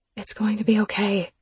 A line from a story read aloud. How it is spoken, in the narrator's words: I whispered